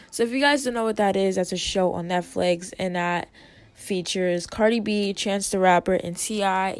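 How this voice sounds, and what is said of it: Dry, strange-sounding voice. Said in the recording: “I don't know why I sound so dehydrated. ... My voice sounds so weird.”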